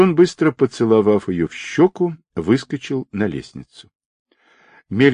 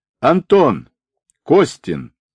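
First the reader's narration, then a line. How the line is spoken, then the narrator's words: Loud shout. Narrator (Russian): громко крикнул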